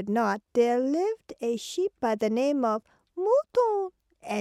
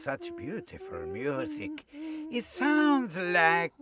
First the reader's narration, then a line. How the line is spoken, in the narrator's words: He growled